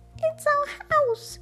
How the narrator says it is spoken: squeaked the mother mouse

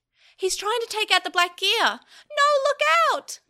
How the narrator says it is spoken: cried, unable to withstand

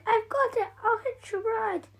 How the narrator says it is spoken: They cried

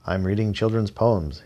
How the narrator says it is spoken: he said

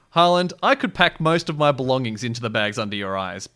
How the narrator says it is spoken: Bucky answered

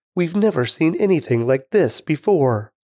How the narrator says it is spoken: They were all amazed and praised God, exclaiming

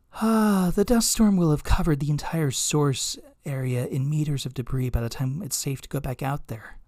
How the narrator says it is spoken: Viola sighed

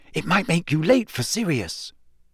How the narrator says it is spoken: nervously … hissed

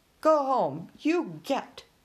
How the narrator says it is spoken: He yelled

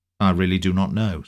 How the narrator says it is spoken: said I

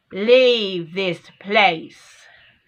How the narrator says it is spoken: he said in words that Bod heard in his head, words that were also a guttural growl

